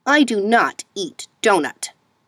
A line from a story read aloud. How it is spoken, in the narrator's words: Misha said sharply